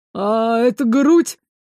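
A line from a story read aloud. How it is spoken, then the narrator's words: Chuckling reply. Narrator (Russian): хохотнули в ответ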